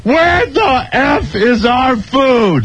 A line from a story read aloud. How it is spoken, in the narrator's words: I requested permission to yell, and then I went